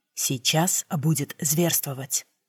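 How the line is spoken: Whispered. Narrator (Russian): прошептал Рик

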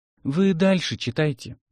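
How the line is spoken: Sighing. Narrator (Russian): вздохнул Боря

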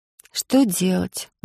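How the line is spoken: Sigh. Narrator (Russian): вздохнула Алиса

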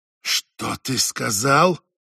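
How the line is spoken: Hissed. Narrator (Russian): прошипела Жанет

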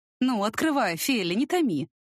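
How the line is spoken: Nervous laughter. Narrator (Russian): Я нервно рассмеялась

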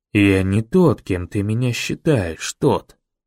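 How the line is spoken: Quiet, close to ear. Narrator (Russian): негромко произнес мэр, почти мне в ухо

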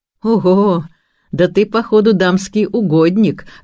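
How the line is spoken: Carefree laughing. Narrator (Russian): рассмеялся, ощущая чудесную легкость и полную свободу

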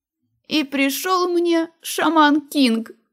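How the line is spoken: Frightened moan. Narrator (Russian): простонала перепуганная я

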